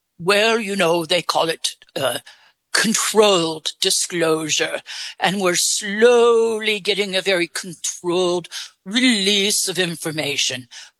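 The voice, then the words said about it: English accent. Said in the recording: “Where did you get your English accent? ... I actually created it for you. ... you're doing a good job with it.”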